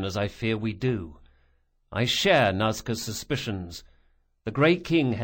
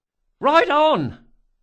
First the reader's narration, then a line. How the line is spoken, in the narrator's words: cried Bug